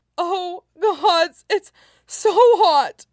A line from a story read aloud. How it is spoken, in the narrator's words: Huaisang gasped between moans